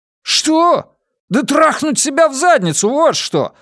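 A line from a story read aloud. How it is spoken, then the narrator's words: Yelling. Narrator (Russian): завопил я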